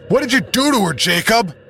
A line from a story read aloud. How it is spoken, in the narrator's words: I yell